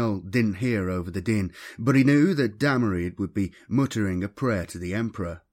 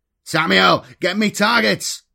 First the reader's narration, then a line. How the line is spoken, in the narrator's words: shouted Karavras